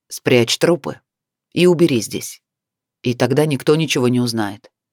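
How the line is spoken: Rough clipped words. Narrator (Russian): грубо отчеканил

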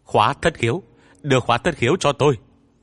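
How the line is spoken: Yell. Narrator (Vietnamese): Dương Kiêu lại hét

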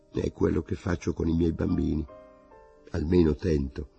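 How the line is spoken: Half voice. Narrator (Italian): La frase aveva colpito anche Saussier, che disse a mezza voce

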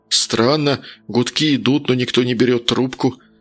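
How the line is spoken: Muttered. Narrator (Russian): пробормотал он

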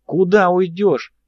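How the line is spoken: Yelling. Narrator (Russian): даже заорал

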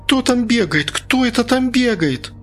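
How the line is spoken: Frightened, fading away. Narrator (Russian): испуганно повторяла незнакомка, удаляясь от нас

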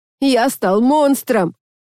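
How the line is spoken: Dramatic outcry. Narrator (Russian): патетически выкрикнул

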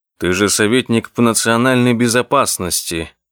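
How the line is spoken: Gloomy reminder. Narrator (Russian): мрачно напомнил ему Одик

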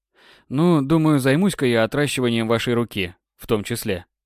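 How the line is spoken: Calm reply. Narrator (Russian): ответил спокойно

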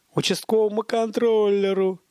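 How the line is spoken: Roaring laughter. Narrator (Russian): Батон гомерически захохотал

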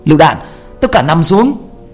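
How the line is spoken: Shouted warning. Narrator (Vietnamese): tiếng hét của một người trong nhóm của ba

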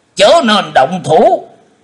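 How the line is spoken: Shouted warning. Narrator (Vietnamese): Khô Lâu đạo trưởng cũng đã quát lên

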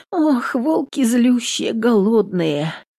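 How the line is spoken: Sighing. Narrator (Russian): вздохнула Нютка

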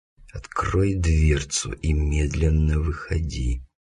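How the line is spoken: Hissing whispered command. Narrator (Russian): свистящим шепотом командую я

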